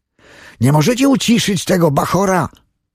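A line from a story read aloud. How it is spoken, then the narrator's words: Man calling out. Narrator (Polish): zawołał jakiś mężczyzna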